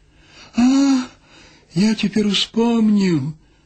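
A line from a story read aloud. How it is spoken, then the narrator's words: Sudden cry. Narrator (Belarusian): ускрыкнуў ён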